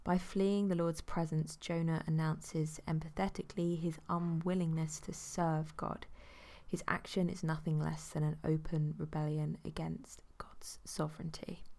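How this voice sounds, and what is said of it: Croaky, sore-throated voice. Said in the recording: “I've got a bit of a sore throat. ... So I'm losing a few words and being a bit croaky.”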